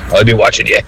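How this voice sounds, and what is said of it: Put-on Dublin accent. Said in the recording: “You put it into a Dublin accent, it's always worse.”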